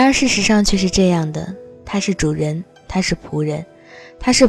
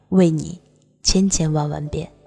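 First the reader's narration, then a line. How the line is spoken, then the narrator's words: Smiling warmly. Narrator (Chinese): 哈桑洋溢着笑脸对阿米尔说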